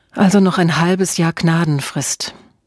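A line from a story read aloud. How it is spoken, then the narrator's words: Sighing. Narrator (German): Emma seufzte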